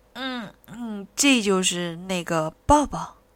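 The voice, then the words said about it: Soft, quiet, shy voice. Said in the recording (Chinese): “红着脸，小声的说”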